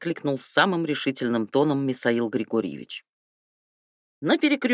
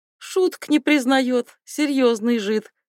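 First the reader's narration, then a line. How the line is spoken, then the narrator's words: Hearty laughter. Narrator (Russian): хохотал от всей души Лихолетьев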